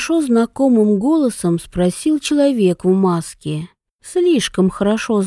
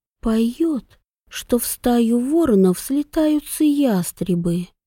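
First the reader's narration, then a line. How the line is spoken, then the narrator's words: Barely voiced whisper. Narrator (Russian): тихо одними губами прошептала Вивьен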